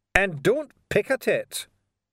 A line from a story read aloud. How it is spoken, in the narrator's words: Lorne snapped